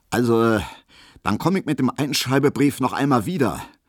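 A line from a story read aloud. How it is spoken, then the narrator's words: Loud, dignified, serious, official. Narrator (German): sagte Herr Schulze plötzlich sehr laut, sehr würdig, sehr ernst und sehr dienstlich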